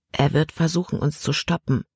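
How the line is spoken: Quiet warning. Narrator (German): warnte Caleb immer noch leise

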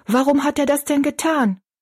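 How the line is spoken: Call. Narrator (German): rief Betty Ann

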